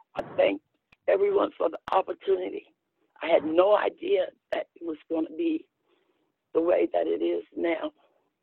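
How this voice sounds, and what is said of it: Shaky, emotional voice. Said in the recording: “my voice is getting a little shakier, but I'm excited.”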